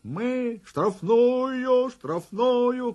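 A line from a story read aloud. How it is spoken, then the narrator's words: Shout. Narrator (Russian): кричал Володька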